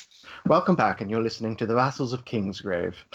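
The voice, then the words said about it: Upper-class British accent. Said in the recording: “Just do it in a British accent... Oh, I like you go for like the upper class accent.”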